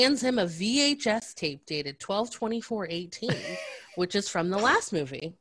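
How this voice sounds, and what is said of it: Usual voice. Nothing is said of it.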